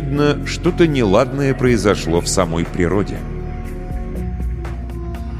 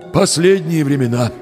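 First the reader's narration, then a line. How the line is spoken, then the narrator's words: Sighing host. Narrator (Russian): вздохнул хозяин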